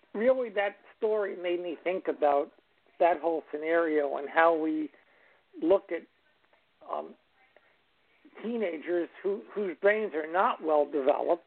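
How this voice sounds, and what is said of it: Hoarse, fading voice. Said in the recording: “Excuse my voice. I'm losing my voice a little bit.”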